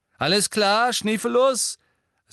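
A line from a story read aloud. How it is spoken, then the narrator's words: Said loudly. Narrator (German): sagte James laut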